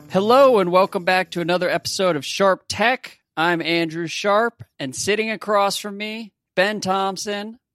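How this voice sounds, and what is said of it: Put-on podcast host voice. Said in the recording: “suddenly they turn on their podcast voice ... you just doubled down on podcast voice”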